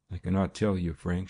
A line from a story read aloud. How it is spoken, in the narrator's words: she said breathlessly